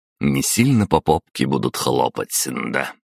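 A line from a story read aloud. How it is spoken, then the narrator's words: Amused snort. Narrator (Russian): хмыкнул я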